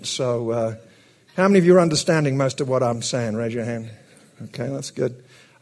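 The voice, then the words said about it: Speaks with a noticeable accent. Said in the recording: “The accent's kind of new. I've had a refurbishment.”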